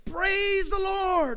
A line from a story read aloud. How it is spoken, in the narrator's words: yelled back